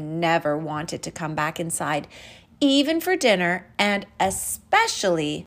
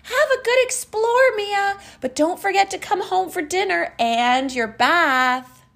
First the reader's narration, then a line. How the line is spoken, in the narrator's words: Her mom would always yell back